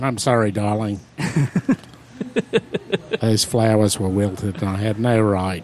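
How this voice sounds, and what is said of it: Put-on Australian accent. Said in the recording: “this would be an Australian accent... Straight from Wallamaloo. Totally authentic... It's not vaudevillian in any way or unbelievable... in an Australian accent”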